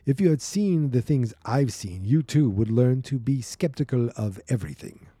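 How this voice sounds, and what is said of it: Bad put-on Russian accent. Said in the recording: “I'm going to do some bad Russian accent... That's bad. That's a terrible accent.”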